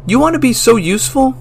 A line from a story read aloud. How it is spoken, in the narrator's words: I yelled